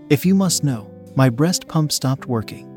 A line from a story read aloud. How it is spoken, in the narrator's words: Jess said